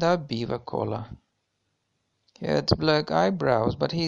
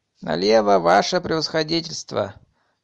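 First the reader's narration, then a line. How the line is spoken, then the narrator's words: Rough shout. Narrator (Russian): грубо крикнул с кучер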